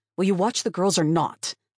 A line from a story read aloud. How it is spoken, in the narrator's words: I snapped, unable to keep the venom from my tone